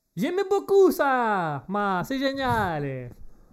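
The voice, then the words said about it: Put-on Italian accent. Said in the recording (French): “j'ai l'accent qui est... j'ai des origines italiennes”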